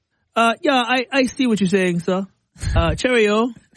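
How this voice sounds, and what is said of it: Attempted British accent sounding Jamaican. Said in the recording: “I'm trying to practice my British accent ... That sounded Jamaican.”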